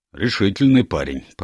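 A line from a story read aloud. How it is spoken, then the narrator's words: Grumbled. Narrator (Russian): проворчал представитель Скотланд-Ярда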